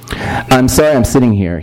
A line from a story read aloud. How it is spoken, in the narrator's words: he said, standing nervously